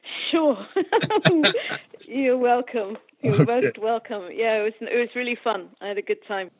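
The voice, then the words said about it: British accent, female speaker. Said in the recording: “a British accent that women have”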